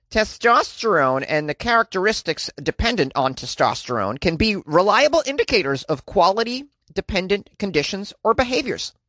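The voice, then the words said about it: Nerdy scientist character voice. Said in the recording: “That was my impression of a nerdy scientist.”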